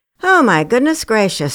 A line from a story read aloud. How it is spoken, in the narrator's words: chuckled